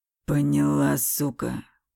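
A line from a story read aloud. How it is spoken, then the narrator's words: Close-up hiss. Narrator (Russian): прошипел он в лицо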